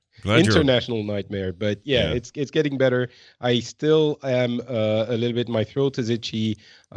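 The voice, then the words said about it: Deep, congested sick voice. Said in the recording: “I'm congested, but it gives me that deep voice, you know, the flu voice... With intermittent horrible coughing.”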